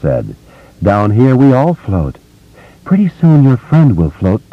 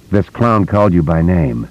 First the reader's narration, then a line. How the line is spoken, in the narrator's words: Jeff Reeves said in a totally expressionless voice